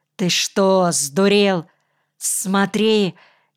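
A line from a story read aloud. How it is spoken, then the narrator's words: Near shout. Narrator (Russian): чуть ли не выкрикнул Кирка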